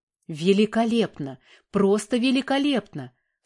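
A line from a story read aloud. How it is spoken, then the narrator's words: Excited exclamation. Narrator (Russian): Вскакивая с места, воскликнул профессор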